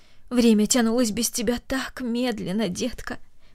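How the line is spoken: Added tenderly. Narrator (Russian): добавила она нежно

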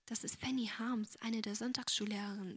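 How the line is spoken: Quiet. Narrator (German): sagte Agnes ebenso leise

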